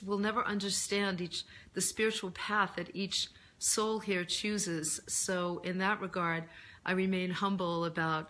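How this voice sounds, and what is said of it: Hoarse, deeper voice. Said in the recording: “I'm actually just getting my voice back from laryngitis... I lost my voice... I just have a deeper voice.”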